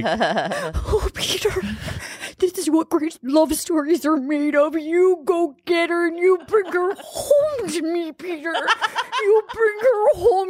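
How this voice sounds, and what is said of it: Impression of Barb from the show. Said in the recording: “does a great impression of someone on the show”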